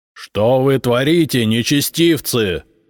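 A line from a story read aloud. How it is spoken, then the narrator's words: Booming echoing shout, patriarch. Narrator (Russian): зычным голосом крикнул патриарх, и его слова разнеслись под сводами, усиленные многократно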